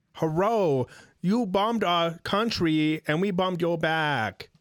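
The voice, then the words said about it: Put-on Asian accent, poorly done. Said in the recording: “I don't think that's the right accent. ... An Asian accent? ... That's not the right ... accent. It's not the right accent.”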